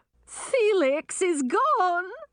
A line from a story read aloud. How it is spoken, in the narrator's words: sobbed Queen Chartreuse